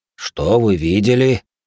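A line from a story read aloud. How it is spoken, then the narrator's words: Stern question. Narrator (Russian): строго спросил Гуйшен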